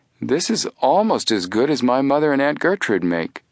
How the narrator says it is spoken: Joe exclaimed

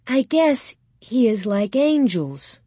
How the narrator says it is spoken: Mary said slowly

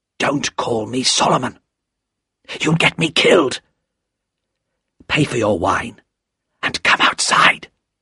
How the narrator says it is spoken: said the man in a low, frightened voice

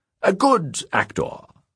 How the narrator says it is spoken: said Sunayi in a light, theatrical tone

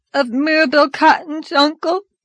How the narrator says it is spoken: sobbed Dora

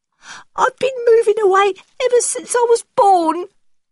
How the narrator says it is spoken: cries the boy, drying his dirty tears

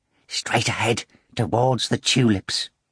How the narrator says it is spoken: whispered

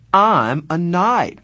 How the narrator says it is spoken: Marcia said brightly

